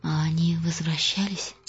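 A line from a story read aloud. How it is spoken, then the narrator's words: Quiet question. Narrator (Russian): тихо спросила Костелла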